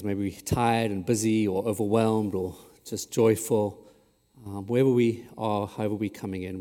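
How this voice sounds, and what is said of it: South African accent. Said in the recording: “the accent is South African”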